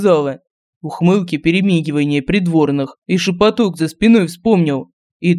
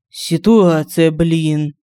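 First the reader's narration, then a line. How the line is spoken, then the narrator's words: Sighing. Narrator (Russian): вздохнул Семен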